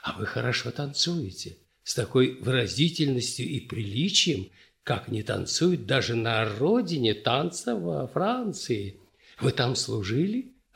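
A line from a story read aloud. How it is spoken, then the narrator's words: Dry, then smiling whisper. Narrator (Russian): Сухо и точно сказал военный и вдруг, улыбнувшись, тихо прошептал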